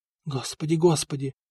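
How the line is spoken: Hurried whisper. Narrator (Russian): шептала Нантильда, которая почти бежала в свои покои

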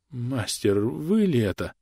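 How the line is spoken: Strained, incredulous. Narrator (Russian): Все еще, не веря своим глазам, выдавил из себя Ромушев

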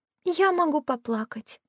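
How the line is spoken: Timid. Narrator (Russian): робко предложила Кира

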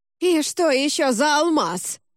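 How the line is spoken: Unexpectedly thin drawl. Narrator (Russian): неожиданно тонким голосом протянул он

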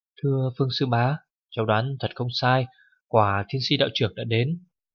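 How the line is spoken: Child, excited whisper. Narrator (Vietnamese): cậu bé mừng quýnh lên, khẽ nói với Phương Bách Xuyên rằng

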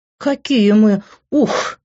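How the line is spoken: Laughing, lost for words. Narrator (Russian): не нашла подходящего определения, продолжая хохотать

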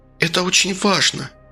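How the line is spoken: Tender, mesmerizing near-whisper. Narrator (Russian): почти шептал женский голос, такой нежно завораживающий

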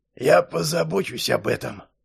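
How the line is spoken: Creaky voice from behind. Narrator (Russian): проскрипел Патрик за ее спиной

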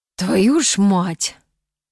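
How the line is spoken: Hoarse rasp. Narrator (Russian): прохрипел Кит

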